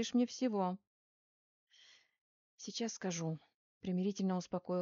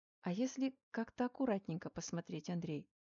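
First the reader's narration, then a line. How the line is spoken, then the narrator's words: Gentle affectionate voice. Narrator (Russian): ласковым голосом предложила я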